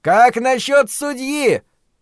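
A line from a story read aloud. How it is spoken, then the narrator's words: Shouting. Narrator (Russian): прокричал кто-то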